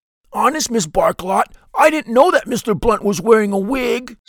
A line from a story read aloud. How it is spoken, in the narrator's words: sputters Guido